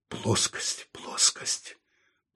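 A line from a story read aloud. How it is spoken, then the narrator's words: Muttered. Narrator (Russian): пробормотал он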